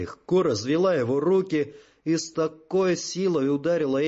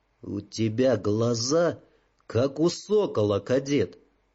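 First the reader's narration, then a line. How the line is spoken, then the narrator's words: Calm, female. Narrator (Russian): спокойно проговорила она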